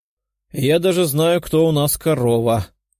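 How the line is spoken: Short laugh. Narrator (Russian): хохотнула Даша

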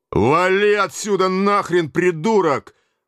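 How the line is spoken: Shouted in deep bass. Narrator (Russian): выкрикнул он басом

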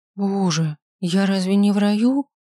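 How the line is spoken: Dejected question. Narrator (Russian): спросила я упавшим голосом

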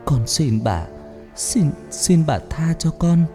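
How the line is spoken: Frightened, weak, trembling. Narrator (Vietnamese): Cô sợ hãi nói giọng yếu ớt run rẩy

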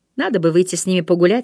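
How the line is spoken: Plain. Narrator (Russian): сказала Амели

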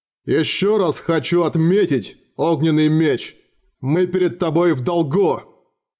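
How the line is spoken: Booming drone. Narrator (Russian): Гарцвог … прогудел

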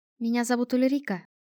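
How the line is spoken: Shy, smiling. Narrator (Russian): робко улыбнулась брюнетка

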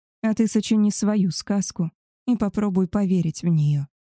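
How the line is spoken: Soft. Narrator (Russian): мягко сказал

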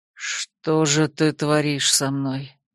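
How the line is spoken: Anguished mutter. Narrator (Russian): пробормотал он, разглядывая меня с такой тоской

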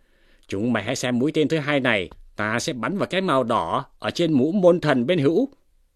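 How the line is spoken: Shouted command. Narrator (Vietnamese): Hoa Vinh quát bảo rằng

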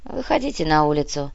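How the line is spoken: Sighing. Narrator (Russian): вздохнул Кортес

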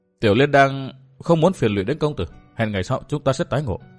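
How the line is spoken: Soft voice. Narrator (Vietnamese): Kim Tiểu Liên khẽ nói

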